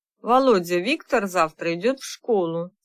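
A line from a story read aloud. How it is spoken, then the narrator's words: Calm. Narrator (Russian): спокойно начала она разговор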